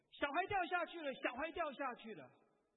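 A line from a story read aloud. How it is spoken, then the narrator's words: Alarmed shout. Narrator (Chinese): 有人大叫说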